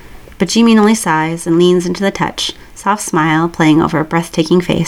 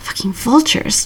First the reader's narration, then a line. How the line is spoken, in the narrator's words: Jimin mutters under his breath